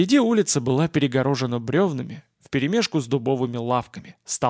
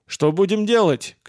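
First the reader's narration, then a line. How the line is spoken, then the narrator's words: Shout. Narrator (Russian): крикнул Войдан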